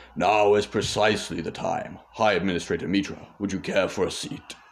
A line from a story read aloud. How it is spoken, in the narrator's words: Hurion spoke in a gruff voice as if nursing a cold and said